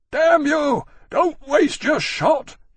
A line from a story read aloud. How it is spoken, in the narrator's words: he bellowed